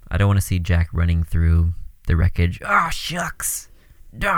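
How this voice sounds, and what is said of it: Usual voice. Nothing is said of it.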